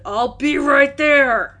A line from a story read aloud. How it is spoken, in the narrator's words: from the back of the office and a voice shouted